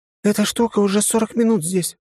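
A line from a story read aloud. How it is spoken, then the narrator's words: Exclaiming. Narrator (Russian): воскликнула Виктория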